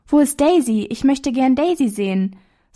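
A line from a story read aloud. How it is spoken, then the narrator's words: Cheerful preacher calling. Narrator (German): So rief eine fröhliche Stimme, welche die Kleine deutlich als die des Predigers erkannte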